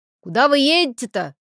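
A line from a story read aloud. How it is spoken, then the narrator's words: Shouting from doorway. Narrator (Russian): уже из двери кричал Аркадий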